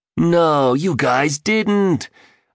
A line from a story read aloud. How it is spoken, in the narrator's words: gushed the billionaire, glee emanating from his raspy voice